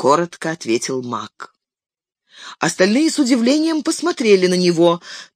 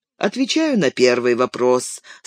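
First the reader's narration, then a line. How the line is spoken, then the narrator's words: Calm. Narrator (Russian): спокойно проговорил маг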